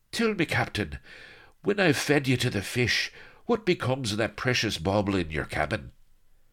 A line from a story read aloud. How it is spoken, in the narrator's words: Since he was almost on his knees with exhaustion, the words came out in a sort of ruined wheeze